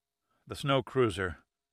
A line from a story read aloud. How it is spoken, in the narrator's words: Pitt barely murmured through frozen lips